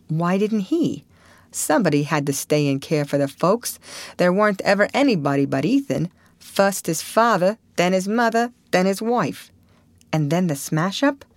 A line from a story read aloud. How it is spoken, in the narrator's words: Harmon chuckled sardonically